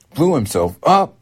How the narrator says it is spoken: Matt shrieked

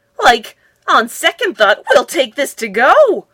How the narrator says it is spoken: cried Shaggy

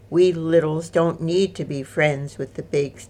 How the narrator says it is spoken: Tom said

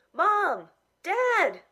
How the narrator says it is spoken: I yelled

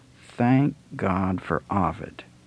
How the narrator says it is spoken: he muttered to himself

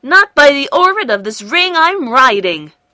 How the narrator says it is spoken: cried Gork stoutly

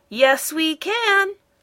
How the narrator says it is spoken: the machines shouted back

